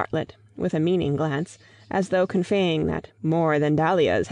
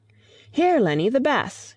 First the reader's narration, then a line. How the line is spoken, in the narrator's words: cried Mrs